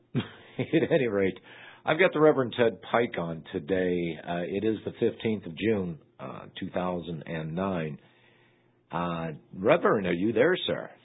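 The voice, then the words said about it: Slightly hoarse voice. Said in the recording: “A little hoarse today ... if I lose my voice”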